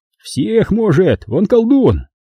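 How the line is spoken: Cheerful interjection. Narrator (Russian): Весело воткнул Константин

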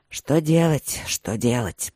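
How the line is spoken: Strained grumble. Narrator (Russian): проворчал Линмор с усилием

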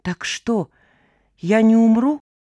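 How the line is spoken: Weak trembling voice. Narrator (Russian): слабым дрожащим голосом немедленно переспросил ... пациент

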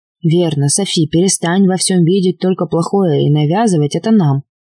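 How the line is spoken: Guilty mumble. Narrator (Russian): пробурчал виновато Арни

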